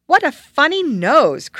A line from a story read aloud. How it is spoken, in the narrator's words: cried the one